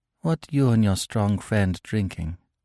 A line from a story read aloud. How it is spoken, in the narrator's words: she said softly